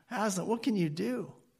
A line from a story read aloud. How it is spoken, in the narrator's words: poor Lucy pleads with him